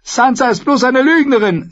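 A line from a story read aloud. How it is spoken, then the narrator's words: Furious speech. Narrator (German): sagte Arya und war aufs Neue fürchterlich wütend auf ihre Schwester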